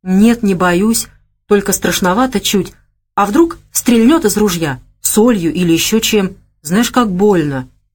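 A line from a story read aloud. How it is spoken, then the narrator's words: Whisper. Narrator (Russian): прошептал тот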